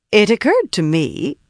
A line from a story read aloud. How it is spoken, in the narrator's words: said brightly